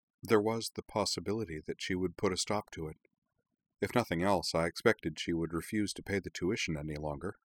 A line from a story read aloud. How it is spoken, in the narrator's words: said, her voice quavering faintly, then recovering